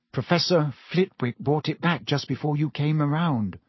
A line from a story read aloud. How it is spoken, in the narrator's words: said Hermione in a very small voice